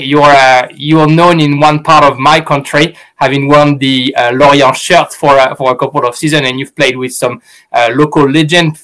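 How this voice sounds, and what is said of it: French accent in English. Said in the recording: “the accent gives it. I'm French.”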